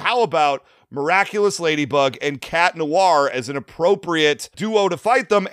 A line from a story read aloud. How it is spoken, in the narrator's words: Robert Clark Chan raised his voice and said